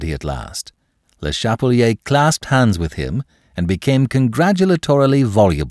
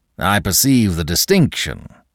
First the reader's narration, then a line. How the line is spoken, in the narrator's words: said Monsieur Danton, and sneered